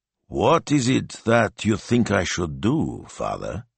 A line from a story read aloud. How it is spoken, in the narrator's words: he asked slowly